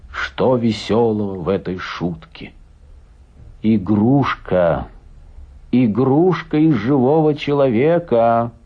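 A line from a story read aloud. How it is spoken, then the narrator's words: Plain. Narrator (Russian): сказал Стильтон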